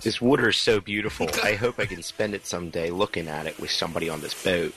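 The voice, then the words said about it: Titanic dialogue in Philly accent. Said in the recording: “This is the Titanic with a Philly accent.”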